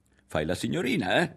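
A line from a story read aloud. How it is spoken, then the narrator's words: Laughing. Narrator (Italian): rise Ario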